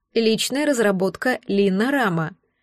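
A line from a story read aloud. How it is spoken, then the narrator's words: Soft explaining voice. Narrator (Russian): мягким голосом пояснил Рик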